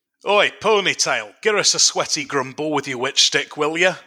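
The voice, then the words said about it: Bad mixed regional peasant accent. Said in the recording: “do some regional peasant accents, but I'm going to mix them up to obfuscate... there will be some bad accents in here... there will be some bad regional accents”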